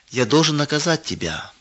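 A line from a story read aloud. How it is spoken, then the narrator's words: Sad male voice. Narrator (Russian): печально произнес он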